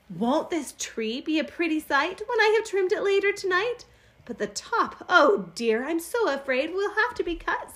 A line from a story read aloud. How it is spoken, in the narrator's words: sighed